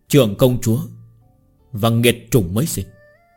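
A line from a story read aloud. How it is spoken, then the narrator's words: Quiet voice. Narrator (Vietnamese): Hoàng Tạ nhỏ giọng nói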